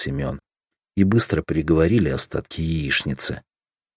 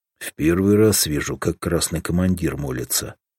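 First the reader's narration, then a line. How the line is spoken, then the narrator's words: Snorting. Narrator (Russian): хмыкнул Семен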